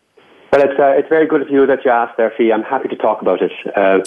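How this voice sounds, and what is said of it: Put-on Irish accent. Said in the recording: “I give it to you in an Irish accent ... I slip into the Irish accent ... put on an Irish accent”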